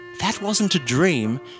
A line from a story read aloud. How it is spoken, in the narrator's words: said Mother Ferret soothingly